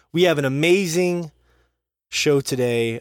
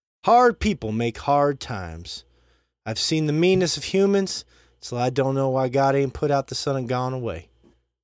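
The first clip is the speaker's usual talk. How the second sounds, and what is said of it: Reads quotes in put-on accent. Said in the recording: “Can we get a take without the accent? ... the accent in the text.”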